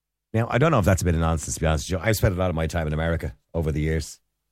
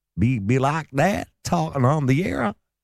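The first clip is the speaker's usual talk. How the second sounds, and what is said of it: Poor put-on Southern American accent. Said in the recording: “could put on a bit of American accent, couldn't I? ... But that's not a good American accent, really, is it? Sounds like I'm from the middle of the down south, ye old boys”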